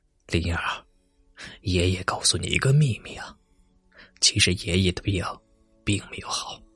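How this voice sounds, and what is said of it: Quiet, hushed voice. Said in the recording (Chinese): “小声道”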